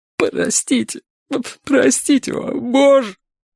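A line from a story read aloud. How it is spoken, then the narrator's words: Breathless, sobbing. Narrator (Russian): Он задыхался, всхлипывал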